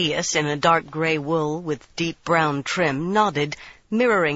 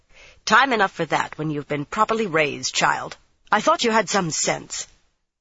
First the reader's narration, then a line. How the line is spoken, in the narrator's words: Van Deen irritably said